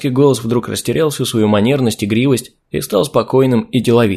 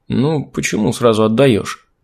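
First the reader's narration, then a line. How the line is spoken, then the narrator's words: Young man mumbling. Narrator (Russian): Промямлил юношеский голос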